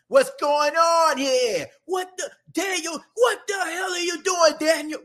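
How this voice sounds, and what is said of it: Imitated New York accent, yelling. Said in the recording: “My throat kind of dry, so I can't really get my full-fledged New York accent. I can do better than that. I really can.”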